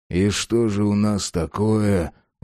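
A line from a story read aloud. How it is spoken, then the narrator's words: Sighing inquiry. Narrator (Russian): вздохнув, осведомился Джек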